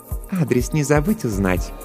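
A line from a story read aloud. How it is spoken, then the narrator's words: Purring. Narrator (Russian): промурлыкала Жанна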